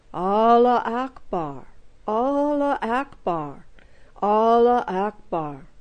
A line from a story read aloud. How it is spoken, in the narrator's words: intoned solemnly